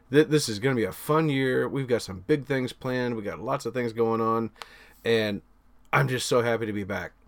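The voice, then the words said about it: Excited, enthusiastic voice. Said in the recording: “you got to hear it in my voice,... I'm so stoked”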